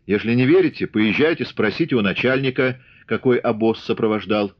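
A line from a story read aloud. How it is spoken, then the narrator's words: Angry. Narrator (Russian): Дарья зло сверкнула глазами, добавила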